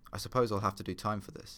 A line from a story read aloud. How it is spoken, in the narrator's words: he said